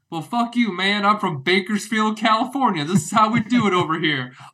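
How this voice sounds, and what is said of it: Put-on hick Southern accent. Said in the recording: “the hick southern accent”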